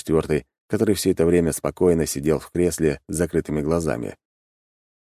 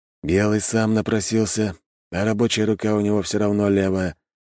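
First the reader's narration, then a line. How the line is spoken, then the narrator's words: Calm. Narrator (Russian): спокойно ответил главный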